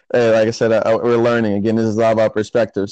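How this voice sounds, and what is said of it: American accent. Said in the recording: “I'm sure you hear my American accent... Yes, I do. I actually love hearing the American accent.”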